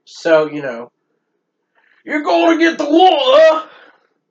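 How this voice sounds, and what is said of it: Aggressive put-on accent. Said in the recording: “an aggressive accent ... That was rough”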